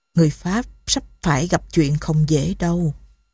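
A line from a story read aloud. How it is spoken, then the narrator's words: Quiet, emotional. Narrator (Vietnamese): Thiếu tá Betty lộ vẻ xúc động, khẽ bảo Saint-Denis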